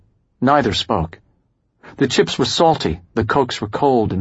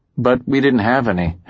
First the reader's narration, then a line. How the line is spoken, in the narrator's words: Howie said